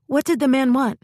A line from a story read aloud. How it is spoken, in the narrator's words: blurting